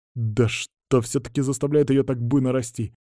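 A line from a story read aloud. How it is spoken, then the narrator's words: Muttered. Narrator (Russian): Пробормотал я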